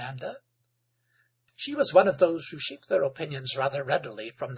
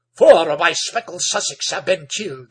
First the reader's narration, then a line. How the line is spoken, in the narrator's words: he exclaimed